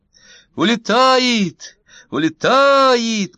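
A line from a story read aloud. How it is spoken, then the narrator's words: Shout from crowd. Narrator (Russian): крикнул тот в толпе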